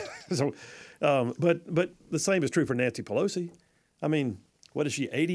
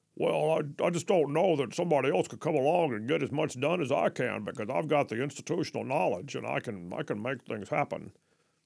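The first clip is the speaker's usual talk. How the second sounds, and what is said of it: Imitates another person's voice. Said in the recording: “that's my Mitch McConnell impression. ... It's pretty spot on. ... I thought it was pretty good.”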